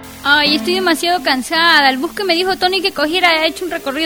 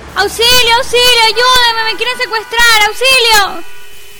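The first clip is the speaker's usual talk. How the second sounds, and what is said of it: Shouting for help. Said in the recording (Spanish): “¡Ya no grites! ¡Ya no grites!”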